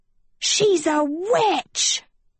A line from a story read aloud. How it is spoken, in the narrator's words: Sophie screamed